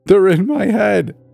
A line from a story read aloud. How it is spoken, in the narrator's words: sobbed, his voice high and broken